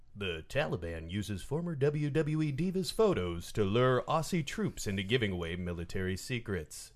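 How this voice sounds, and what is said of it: Mock serious radio newsreader voice. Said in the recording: “in my NPR news voice, because this is a serious story”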